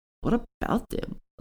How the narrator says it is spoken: said, and then nervously

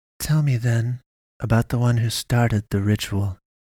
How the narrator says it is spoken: she said coolly

